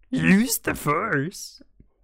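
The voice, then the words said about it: Imitates Yoda's voice, not very good. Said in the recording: “I can't do a very good Yoda impression.”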